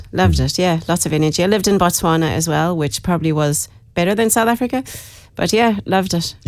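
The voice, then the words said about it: South African-tinged Irish accent. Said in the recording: “I'm originally from Dublin. Lived in South Africa for a long time, hence the accent. ... You got the accent”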